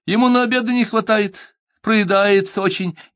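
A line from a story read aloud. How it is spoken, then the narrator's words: Laughing almost cheerfully. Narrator (Russian): засмеялась генеральша почти весело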